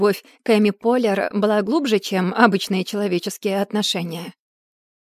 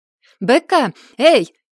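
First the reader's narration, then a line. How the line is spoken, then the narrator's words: Shout. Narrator (Russian): крикнула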